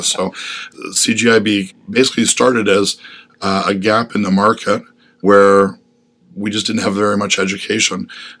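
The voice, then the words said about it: Rough, congested voice. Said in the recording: “excuse my voice. I'm just getting over a cold”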